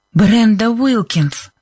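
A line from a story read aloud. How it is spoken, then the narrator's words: Breathless exhale. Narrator (Russian): выдохнула Либби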